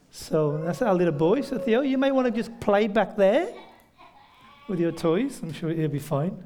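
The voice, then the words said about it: British accent from near Birmingham. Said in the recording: “a completely different accent ... my accent ... it's near Birmingham in the UK, so central Britain”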